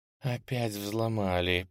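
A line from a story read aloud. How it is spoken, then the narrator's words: Tense near whisper. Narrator (Russian): почти шепотом прошептала женщина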